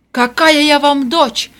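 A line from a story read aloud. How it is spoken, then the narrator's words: Shouted. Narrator (Russian): крикнула Вера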